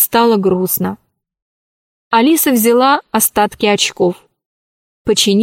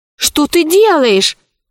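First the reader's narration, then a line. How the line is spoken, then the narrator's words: Shout. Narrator (Russian): закричал Пашка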